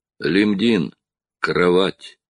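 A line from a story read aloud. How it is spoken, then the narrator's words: Soft. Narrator (Russian): мягко сказал Строн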